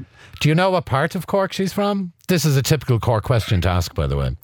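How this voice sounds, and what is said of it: Irish Cork accent. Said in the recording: “does she still have a Cork accent? ... she sounds like you.”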